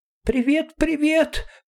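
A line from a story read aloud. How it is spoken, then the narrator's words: Squeaky small creature voice. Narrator (Russian): пропищал маленький зверек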